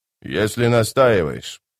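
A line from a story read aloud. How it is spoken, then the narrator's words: Grumbling. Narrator (Russian): проворчал чародей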